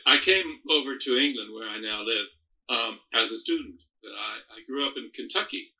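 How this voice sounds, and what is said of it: Faint, watered-down American accent. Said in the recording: “your accent is sort of watered down”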